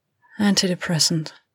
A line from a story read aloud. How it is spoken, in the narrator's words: Miranda said, sighing